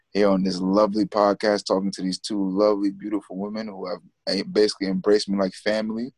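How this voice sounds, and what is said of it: American accent. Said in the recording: “not from the UK... you can hear that accent... The USA.”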